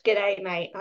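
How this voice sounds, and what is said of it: Put-on Australian accent, fairly decent. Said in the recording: “I've been working on my Australian accent ... You gotta get back in the throat ... Yeah, that's better. That was a bit better.”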